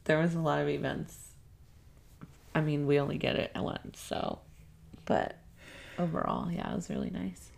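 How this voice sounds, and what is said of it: Soft-spoken, voiceover-like sound. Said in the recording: “you're kind of soft-spoken right now ... you sound like a poet ... You got this, like, voiceover sound ... it's because you told me to back away from the mic”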